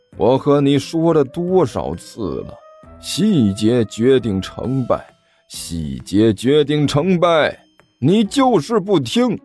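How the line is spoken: Sighing. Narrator (Chinese): 李延独叹了口气

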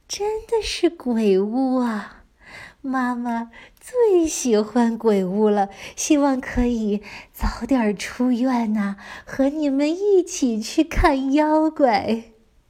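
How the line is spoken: Smiling, sick mother. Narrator (Chinese): 躺在病床上的妈妈也微笑着说

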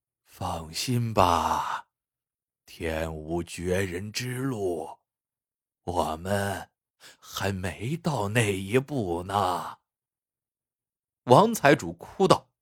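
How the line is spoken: Old steward sighing. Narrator (Chinese): 老管家叹道

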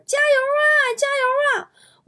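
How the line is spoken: Bystander shouting. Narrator (Chinese): 旁边一个骑电动车的人搁公交旁边就喊

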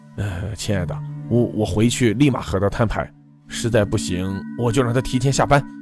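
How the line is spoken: Soft and tender. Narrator (Chinese): 轻声道

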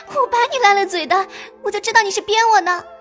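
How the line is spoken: Laughing. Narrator (Chinese): 黛玉……笑道

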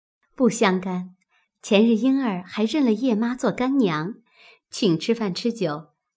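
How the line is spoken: Laughing. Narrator (Chinese): 平儿笑道

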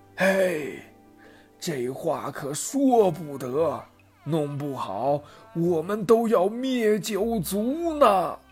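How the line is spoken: Quiet. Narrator (Chinese): 王允小声说

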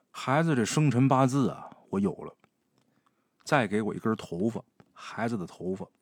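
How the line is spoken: After a long sigh. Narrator (Chinese): 王瞎子长叹一口气，说

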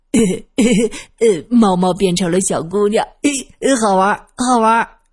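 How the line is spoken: Delighted, smiling. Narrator (Chinese): 二先生笑眯眯的，他一边拍手一边说

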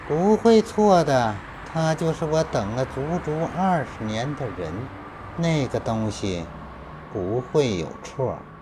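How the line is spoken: Calm, flat. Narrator (Chinese): 许江淡淡道

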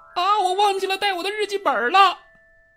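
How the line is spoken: Sudden scream. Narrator (Chinese): 金妮又忽然尖叫起来

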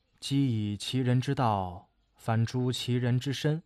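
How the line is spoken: Low voice. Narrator (Chinese): 冯蒙低声的说

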